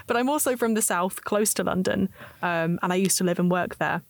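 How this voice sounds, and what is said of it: Strong British English accent. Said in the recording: “my extremely British accent”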